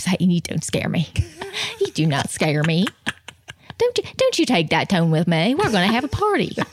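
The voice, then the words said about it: Imitates another person's voice. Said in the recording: “That sounds like him. ... That was a really good impression.”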